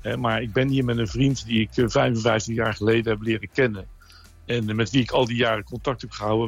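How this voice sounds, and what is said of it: Faint Hague Dutch accent. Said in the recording (Dutch): “Ik hoor ook nog een vaag Haags accent”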